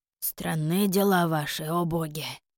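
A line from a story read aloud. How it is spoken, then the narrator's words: Muttered. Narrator (Russian): пробормотал Холлинс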